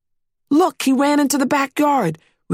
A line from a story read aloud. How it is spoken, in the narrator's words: we exclaimed with excitement